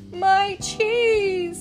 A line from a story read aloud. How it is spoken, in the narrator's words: wailed